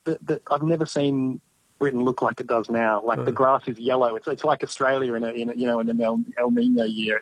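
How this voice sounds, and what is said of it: Non-British accent. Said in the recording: “I've been living here 18 years and I've, you know, somehow managed to hold on to my accent”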